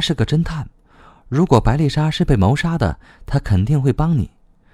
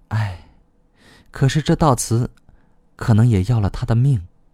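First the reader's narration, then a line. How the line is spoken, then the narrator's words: Sighing. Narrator (Chinese): 乔安娜叹道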